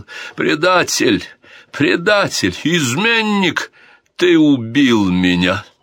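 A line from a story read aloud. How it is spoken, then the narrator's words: Loud anguished shout. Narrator (Russian): Король Санчо громко закричал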